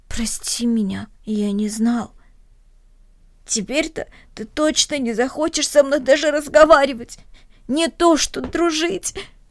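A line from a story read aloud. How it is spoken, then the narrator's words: Sobbing. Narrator (Russian): всхлипнул Денис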